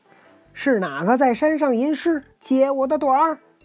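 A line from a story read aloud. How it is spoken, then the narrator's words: Shouting loudly from below. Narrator (Chinese): 大圣在山根下高叫道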